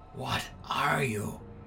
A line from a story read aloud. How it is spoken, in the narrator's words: I whispered